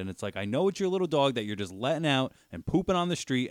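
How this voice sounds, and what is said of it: Loud yelling voice. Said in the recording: “I'm sorry to be so loud in your ear as I'm yelling.”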